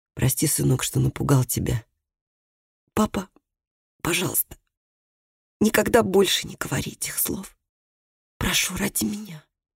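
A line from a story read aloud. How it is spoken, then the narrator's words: Whisper. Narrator (Russian): Микаэль пришел в себя, прошептал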